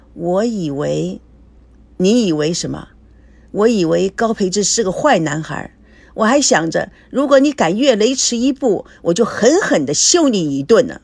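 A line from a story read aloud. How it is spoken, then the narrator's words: Smiling. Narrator (Chinese): 孙娜微笑着说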